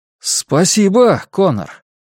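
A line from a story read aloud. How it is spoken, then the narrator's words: Overly forceful exclamation. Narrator (Russian): воскликнул Дезмонд с излишним напором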